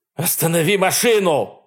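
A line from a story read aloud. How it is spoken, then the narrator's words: Man shouting. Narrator (Russian): закричал мужчина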